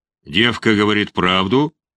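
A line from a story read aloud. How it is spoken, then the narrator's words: Growled. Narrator (Russian): прорычал он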